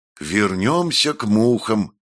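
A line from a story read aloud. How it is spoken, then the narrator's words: Breathed out. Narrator (Russian): выдохнул Монтелье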